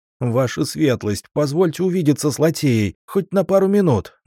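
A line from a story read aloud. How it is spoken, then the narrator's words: Pleading through gritted teeth. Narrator (Russian): взмолился, едва не заскрипев зубами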